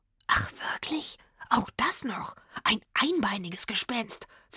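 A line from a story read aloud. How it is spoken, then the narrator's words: Whisper. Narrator (German): flüsterte Rufus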